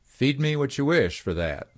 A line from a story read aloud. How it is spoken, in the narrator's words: he said, laughing